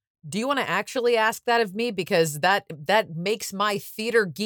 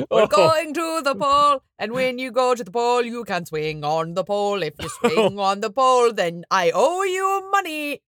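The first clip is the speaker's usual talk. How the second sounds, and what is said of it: Put-on Irish accent. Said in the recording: “Holy Spirit is very Irish ... I'm really enjoying the Holy Spirit's Irish accent.”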